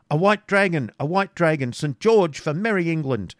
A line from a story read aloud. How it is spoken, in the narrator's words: The shout of